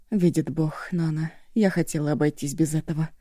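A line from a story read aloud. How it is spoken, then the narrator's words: Sighing mutter. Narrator (Russian): глубоко вздохнула, пробормотав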